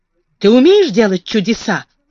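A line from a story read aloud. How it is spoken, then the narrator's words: Sharp question. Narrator (Russian): резко спросил он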